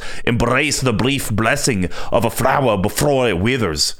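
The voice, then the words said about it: Odd Russian-Scottish mixed accent. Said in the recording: “Apparently, I can't do a normal voice. ... It was like weird Russian Scottish mix. ... That was quite a blend.”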